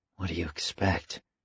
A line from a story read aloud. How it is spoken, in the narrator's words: Al whispered back